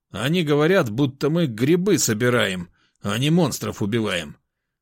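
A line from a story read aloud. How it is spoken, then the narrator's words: Grumbling. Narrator (Russian): пробурчал Соловей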